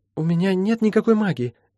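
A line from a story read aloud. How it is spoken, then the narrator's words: Trembling voice. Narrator (Russian): на всякий случай повторила Молли дрожащим голосом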